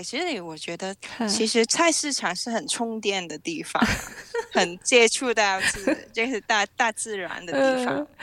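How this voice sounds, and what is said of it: Hong Kong accented Mandarin. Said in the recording (Chinese): “听众朋友听到...的口音就知道，其实呃，她是住在香港啊，从小就是住在香港”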